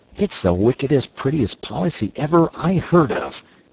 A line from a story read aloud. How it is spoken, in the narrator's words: he cried, and in their exultation